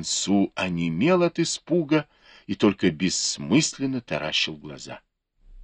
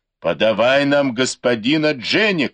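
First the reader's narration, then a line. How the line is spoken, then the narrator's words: Crowd shouting. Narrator (Russian): кричали люди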